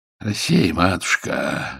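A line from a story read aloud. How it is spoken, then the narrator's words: Pained sigh, gentle father. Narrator (Russian): вздохнул отец, мягкий человек, страдальчески морщась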